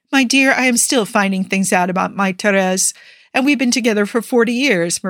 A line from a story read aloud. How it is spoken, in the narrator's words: Maria laughs